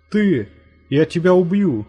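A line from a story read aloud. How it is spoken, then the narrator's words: Shouted. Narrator (Russian): закричал Насвай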